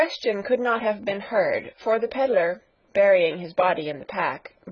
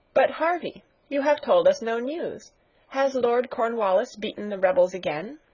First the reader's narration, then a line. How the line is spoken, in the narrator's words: Sarah observed in a cheerful voice